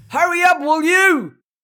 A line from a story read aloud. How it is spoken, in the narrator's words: yelled